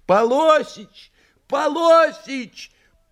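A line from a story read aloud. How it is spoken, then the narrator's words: Loud mournful shout. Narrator (Russian): Совершенно пожелтев, продавщица тоскливо прокричала на весь магазин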